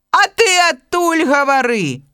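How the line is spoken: Bear shouting across river. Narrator (Belarusian): крычыць яму мядзведь супрацьлеглага берагу

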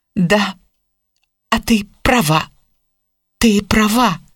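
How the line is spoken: Upset mumbling. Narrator (Russian): совершенно расстроенная пробормотала Мелани

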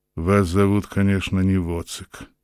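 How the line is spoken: Grumbling. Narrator (Russian): пробурчал наконец

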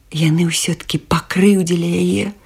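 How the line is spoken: Sighing. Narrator (Belarusian): уздыхнула гусіная лапка

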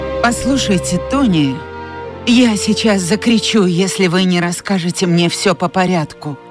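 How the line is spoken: Exclaiming. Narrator (Russian): воскликнула Скарлетт

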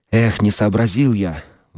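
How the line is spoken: Exclaiming. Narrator (Russian): воскликнул Билл

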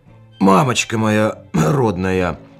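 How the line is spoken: Hoarse sleepy exclamation. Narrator (Russian): Хрипловатым с просонок голосом воскликнул он

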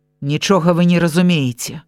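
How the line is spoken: Sharp interruption. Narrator (Belarusian): рэзка перабіў мяне доктар

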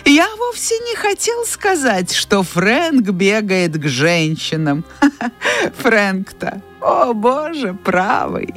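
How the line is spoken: Laughing. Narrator (Russian): продолжая смеяться, Ред

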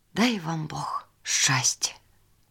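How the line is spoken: Thoughtful whisper. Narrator (Belarusian): Задумалася і прашаптала

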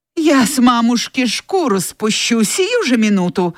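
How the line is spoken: Exclaimed, jumping up. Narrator (Russian): воскликнула, вскакивая, Скарлетт

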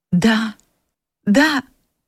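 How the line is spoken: Tearful answer. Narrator (Russian): ответила она сквозь слезы

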